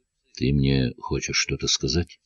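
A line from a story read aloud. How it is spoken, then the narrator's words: Quiet question. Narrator (Russian): тихо спросил Меньшиков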